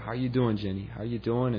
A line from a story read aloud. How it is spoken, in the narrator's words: I started whispering to her